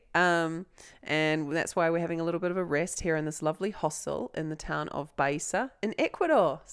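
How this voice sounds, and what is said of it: Congested voice from a cold. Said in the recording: “I've got a cold”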